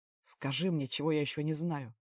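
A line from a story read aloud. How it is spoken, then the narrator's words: Grumbling. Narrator (Russian): проворчал командор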